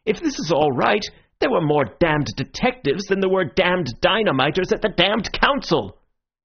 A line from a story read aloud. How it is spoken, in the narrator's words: he cried out